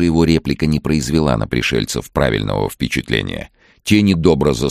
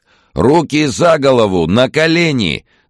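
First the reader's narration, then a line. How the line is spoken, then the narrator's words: Shouted. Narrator (Russian): закричал один из них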